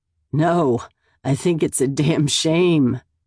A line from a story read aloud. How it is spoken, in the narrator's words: he says between chuckles